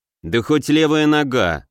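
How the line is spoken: Angry interruption. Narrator (Russian): зло перебил

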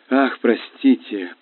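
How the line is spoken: Purring. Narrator (Russian): промурлыкала она

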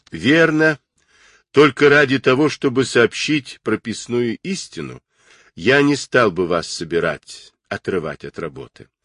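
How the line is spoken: Sighing. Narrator (Russian): вздохнул Орлов

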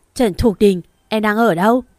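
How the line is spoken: Furious shout, heavy breathing. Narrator (Vietnamese): Thiên Hạo tức giận hét lên thở to

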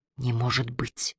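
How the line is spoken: Whispered. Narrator (Russian): прошептала Рэйчел

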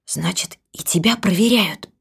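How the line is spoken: Whispered. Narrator (Russian): прошептала

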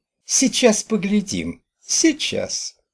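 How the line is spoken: Muffled squeak. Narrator (Russian): пропищала из-за зеркала

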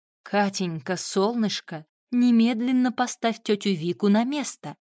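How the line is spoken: Gentle but firm command. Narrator (Russian): ласково, но настойчиво скомандовала Вилька

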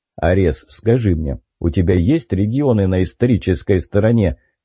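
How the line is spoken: Serious question. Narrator (Russian): спросил собеседник серьезным тоном

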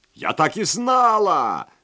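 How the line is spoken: Shrieking. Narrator (Russian): завопила мисс Фрейзи

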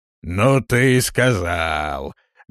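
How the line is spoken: Loud hoarse laugh. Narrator (Russian): громко и хрипло рассмеялся в бороду дворф

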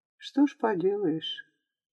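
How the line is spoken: Sad, guilty, smiling. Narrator (Russian): Тот только улыбнулся, грустно и виновато, сказал

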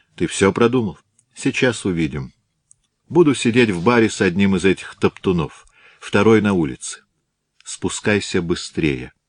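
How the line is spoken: Businesslike question. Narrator (Russian): Он спросил деловым тоном

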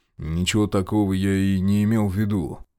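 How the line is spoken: Mumbled. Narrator (Russian): промямлил он

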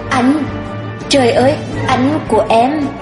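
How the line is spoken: Stammering. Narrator (Vietnamese): lắp bắp

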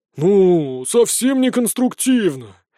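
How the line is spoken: Disappointed drawl. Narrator (Russian): разочарованно протянул

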